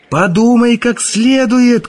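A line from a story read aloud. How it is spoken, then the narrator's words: Shouted after someone. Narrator (Russian): крикнул Язон ему в спину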